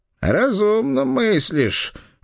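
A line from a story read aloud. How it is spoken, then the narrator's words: Muffled old man agreeing. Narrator (Russian): глухо согласился старый казак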